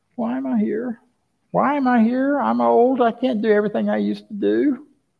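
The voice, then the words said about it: Whiny voice. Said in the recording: “That's my whiny voice.”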